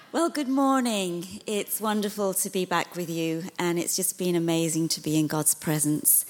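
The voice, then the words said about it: British accent. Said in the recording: “he is British ... this British accent is a lot better”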